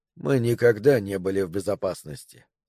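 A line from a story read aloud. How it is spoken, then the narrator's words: Quiet. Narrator (Russian): негромко сказал Тауэрс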